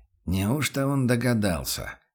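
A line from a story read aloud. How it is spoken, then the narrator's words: Tense muttering. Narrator (Russian): напряженно пробормотал помощник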